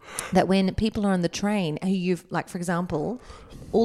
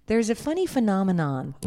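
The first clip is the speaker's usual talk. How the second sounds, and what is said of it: Put-on American accent. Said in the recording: “I can say it if I say it in an American accent.”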